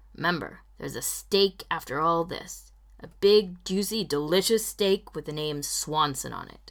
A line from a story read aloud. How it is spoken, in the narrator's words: With a sigh, Ron muttering